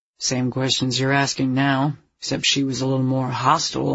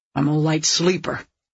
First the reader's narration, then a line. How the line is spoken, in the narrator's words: the woman growled